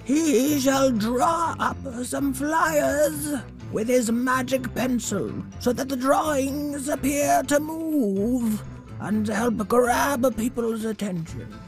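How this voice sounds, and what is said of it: Character voice of a knight. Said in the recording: “Scribno the Doodle Knight. That's my character voice.”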